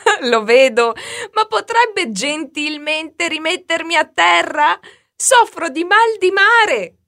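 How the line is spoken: Laughing reply. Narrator (Italian): gli rispose Marta ridendo

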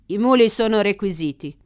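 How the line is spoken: Man's curt reply. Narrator (Italian): replicò l'uomo seccamente

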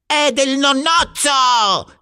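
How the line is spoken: Shout. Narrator (Italian): gridò Ulrich

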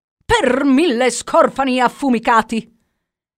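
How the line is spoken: Shouted. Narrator (Italian): gridò Jack

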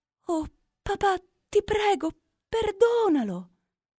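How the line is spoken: Desperate daughter pleading. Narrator (Italian): supplicò la figlia disperata

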